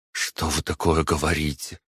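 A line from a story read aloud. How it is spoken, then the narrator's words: Muttering. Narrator (Russian): пробормотала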